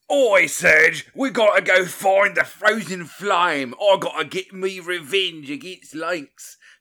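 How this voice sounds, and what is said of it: Exaggerated Australian accent. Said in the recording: “the most ridiculous accent ... that Australian accent”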